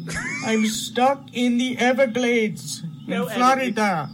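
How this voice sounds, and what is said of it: Put-on Indian accent. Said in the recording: “What accent is he doing? ... That's his Indian accent.”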